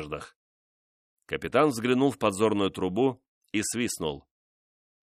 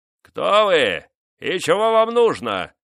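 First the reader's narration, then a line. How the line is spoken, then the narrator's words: Booming, far-carrying voice. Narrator (Russian): спросил Эфраим Савидж зычным голосом, докатившимся, вероятно, до самого берега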